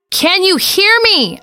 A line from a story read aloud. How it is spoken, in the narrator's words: screamed